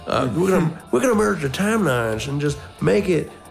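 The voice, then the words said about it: Put-on Southern accent. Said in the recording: “I'm making them Southern.”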